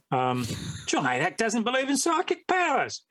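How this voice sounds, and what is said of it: Put-on Australian accent. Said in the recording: “I'm doing the Australian accent”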